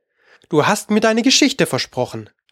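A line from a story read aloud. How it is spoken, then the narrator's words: Plain. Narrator (German): sagte Alice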